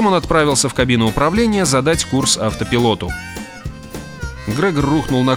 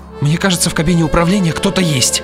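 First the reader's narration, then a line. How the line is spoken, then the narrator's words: Babbling. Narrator (Russian): пролепетал он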